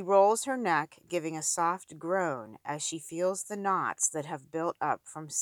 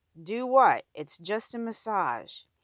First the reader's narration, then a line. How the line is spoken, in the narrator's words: says